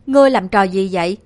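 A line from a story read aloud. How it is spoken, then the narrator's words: Terrified roar. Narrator (Vietnamese): Tô Cẩm Bình kinh hãi gầm lên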